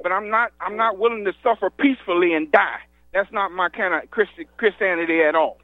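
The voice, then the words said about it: Southern US accent, Georgia. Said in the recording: “You have a southern accent. ... yes, I do. Yeah, ... from Stone Mountain. ... Stone Mountain, Georgia.”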